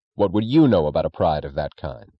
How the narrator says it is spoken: Reardon asked sharply, as if the contempt of the second question could erase the confidence of the first

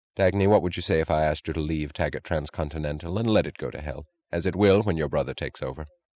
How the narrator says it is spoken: he asked, his voice oddly unstressed

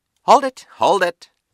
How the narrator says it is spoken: press photographer said loudly

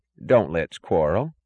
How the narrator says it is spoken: said his mother, her voice cheerless and vague

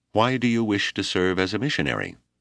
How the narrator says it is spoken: Reverend Thorne asked

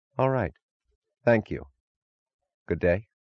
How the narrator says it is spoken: he said, his voice less sharp

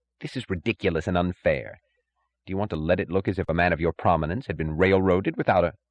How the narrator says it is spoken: The third and youngest judge snapped impatiently

